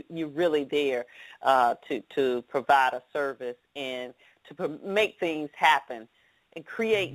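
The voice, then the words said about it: Southern American drawl. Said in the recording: “people deal with my southern drawl”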